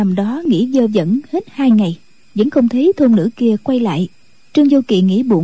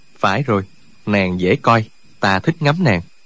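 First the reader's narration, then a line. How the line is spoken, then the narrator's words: Muttering. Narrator (Vietnamese): Chàng không nhịn được, bèn lẩm bẩm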